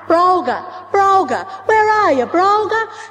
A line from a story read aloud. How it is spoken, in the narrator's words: they cried out